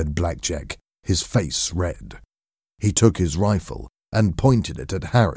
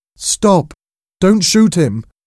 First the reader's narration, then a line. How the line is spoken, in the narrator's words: cried